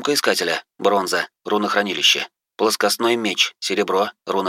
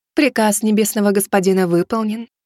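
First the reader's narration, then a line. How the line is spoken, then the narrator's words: Cooing. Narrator (Russian): проворковала она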